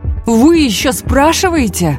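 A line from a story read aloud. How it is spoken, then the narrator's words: Exclaimed. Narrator (Russian): воскликнул Тэ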